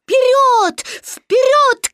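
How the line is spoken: Shouting. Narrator (Russian): кричал Кристофер Робин

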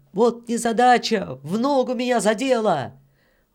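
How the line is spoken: Shouted. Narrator (Russian): Петр крикнул кому-то

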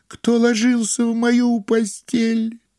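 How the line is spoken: Piercing terrified squeal. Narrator (Russian): завизжал так, как будто его режут

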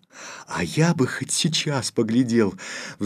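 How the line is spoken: Sighing. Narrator (Russian): вздохнул Федюнька

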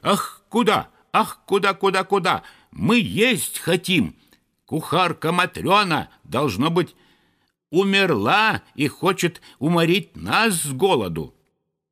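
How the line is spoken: Frantic shouting. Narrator (Russian): неистово кричали

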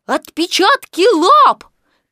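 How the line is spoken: Excited squeal. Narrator (Russian): Пятачок даже взвизгнул от волнения

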